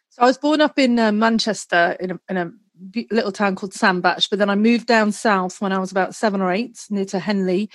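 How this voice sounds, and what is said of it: British English accent. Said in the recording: “Your voice is a bit of a giveaway. Your accent is a bit of a giveaway. You're from the UK.”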